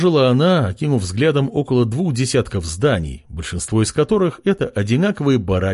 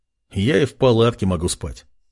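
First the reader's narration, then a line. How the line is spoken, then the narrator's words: Smirking. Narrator (Russian): ухмыльнулся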